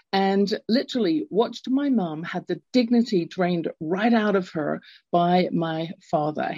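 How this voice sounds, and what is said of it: English accent. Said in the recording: “I grew up in England. You can tell from my accent.”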